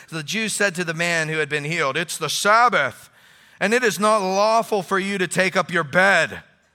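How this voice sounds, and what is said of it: Exaggerated pious reading voice. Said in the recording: “I'll read it in my pious voice.”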